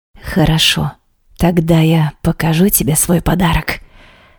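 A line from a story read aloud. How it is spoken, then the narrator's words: Husband whispering. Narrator (Russian): шепнул муж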